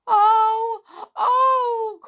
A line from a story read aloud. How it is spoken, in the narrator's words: cried Skip, the tears running down his cheeks in two streams